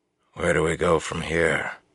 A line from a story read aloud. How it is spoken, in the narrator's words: he asked quietly